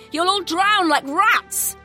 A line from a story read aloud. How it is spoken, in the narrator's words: one man shouted mockingly